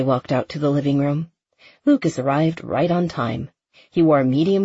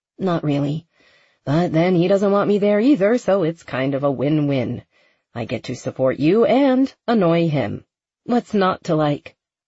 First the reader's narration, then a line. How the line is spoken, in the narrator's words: Becca laughed